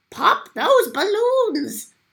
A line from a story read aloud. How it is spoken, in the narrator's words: the Archduke shouted to his men